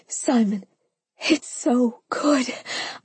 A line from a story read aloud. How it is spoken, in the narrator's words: I panted